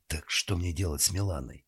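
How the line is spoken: Whispered. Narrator (Russian): прошептала

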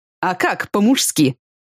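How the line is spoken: Lewd chuckle. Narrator (Russian): Он распутно хохотнул

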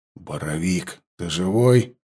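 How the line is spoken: Whisper. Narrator (Russian): прошептал Глеб

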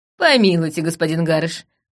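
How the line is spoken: Laughing. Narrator (Russian): рассмеялась я

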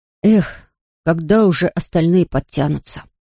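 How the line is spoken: Sighing. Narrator (Russian): вздохнул Пип

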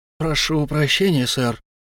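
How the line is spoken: Guilty mumbling. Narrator (Russian): виновато потупившись, забормотал клиент

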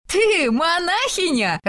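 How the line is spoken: Loud laughter. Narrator (Russian): расхохоталась Сесилия

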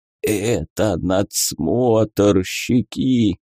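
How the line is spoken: Hoarse wheeze. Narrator (Russian): прохрипел он

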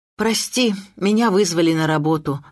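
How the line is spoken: Sighing. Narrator (Russian): вздохнула я

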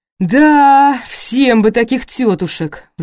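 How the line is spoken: Sighing. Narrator (Russian): вздохнул Славоерсов

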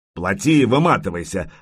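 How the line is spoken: Harsh bark. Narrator (Russian): рявкнул Рябой

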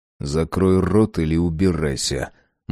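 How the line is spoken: Grim, through teeth. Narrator (Russian): мрачно процедил я

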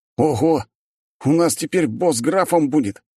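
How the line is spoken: Exclaimed. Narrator (Russian): снова воскликнул тот же командир

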